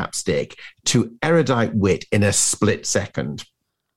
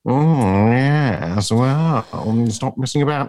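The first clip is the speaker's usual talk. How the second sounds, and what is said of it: Impression of Kenneth Williams. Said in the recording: “Is that your impression of Kenneth Williams?”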